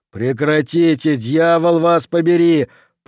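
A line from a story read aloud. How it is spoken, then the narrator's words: Roar. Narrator (Russian): проревел он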